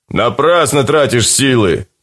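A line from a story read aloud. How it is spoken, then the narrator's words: Shouted after. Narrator (Russian): крикнул вслед адапт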